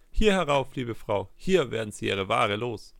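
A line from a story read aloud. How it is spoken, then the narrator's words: Called out. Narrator (German): rief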